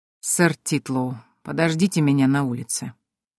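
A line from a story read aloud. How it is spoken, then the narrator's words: Icy tone. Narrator (Russian): ледяным тоном произнес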